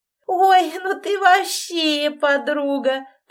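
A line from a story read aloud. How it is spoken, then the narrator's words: Laughing. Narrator (Russian): продолжал смеяться Шурочка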